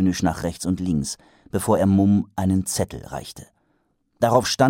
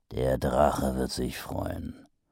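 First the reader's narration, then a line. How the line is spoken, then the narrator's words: Grumbling. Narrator (German): brummte Mumm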